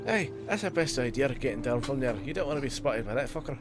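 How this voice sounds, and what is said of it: Dwarf-like fantasy character accent. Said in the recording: “I love your accent ... You sound like, I was going to say, I've heard dwarves”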